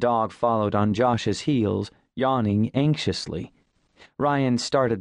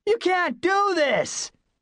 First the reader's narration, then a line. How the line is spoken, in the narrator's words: He shouted